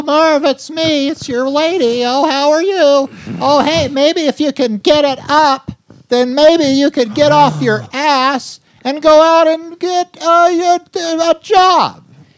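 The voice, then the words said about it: Imitates a nagging woman's voice. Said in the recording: “Really captured the tone right there ... That's pretty good ... You got a good impression there”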